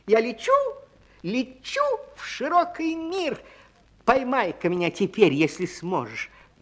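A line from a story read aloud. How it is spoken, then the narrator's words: Tiny squeak. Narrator (Russian): пискнула горошинка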